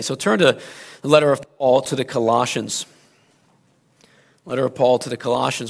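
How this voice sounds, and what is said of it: Slightly hoarse voice. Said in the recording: “my voice is starting to come back to me ... I'm a little hoarse”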